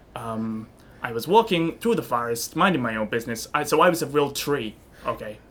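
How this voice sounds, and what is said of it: New York accent. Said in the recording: “With this accent. ... I didn't have this accent before. ... We don't have a New York.”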